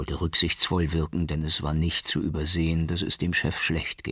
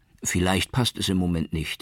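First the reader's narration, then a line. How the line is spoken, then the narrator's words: Gently replied. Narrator (German): erwiderte Baroudi sanft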